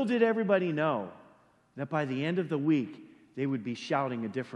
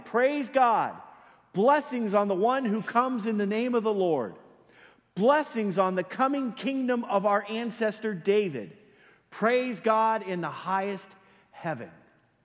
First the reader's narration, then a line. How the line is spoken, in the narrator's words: the people all around him were shouting